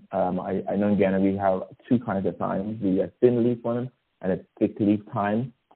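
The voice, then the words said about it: Guyanese-accented English. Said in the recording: “I know my accent.”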